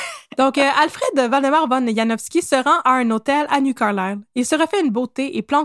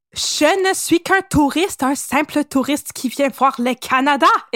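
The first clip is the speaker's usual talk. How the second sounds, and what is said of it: Put-on accent, not very good. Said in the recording (French): “C'est pas super mon accent.”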